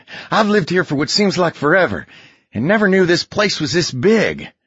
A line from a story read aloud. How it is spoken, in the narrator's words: catching her breath and talking between pants